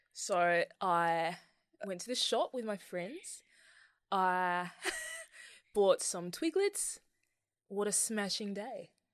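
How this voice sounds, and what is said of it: Put-on Australian accent. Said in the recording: “I do an Australian, that's about it.”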